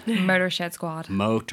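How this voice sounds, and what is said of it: Attempted American accent. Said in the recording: “terrible accent ... I just can't say it with an English tongue”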